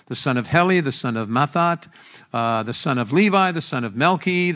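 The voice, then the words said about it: Rapid reading in one breath. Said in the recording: “let me read this quickly to you... Let me see how far I can go in one breath”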